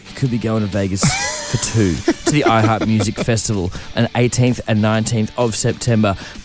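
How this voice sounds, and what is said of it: Hoarse, croaky voice. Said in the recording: “I've got a frog in my throat.”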